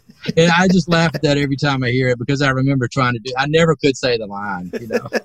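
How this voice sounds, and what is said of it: Alabama Southern drawl. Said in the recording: “you got that Alabama accent kind of too, right? ... Exactly ... it's a drawl”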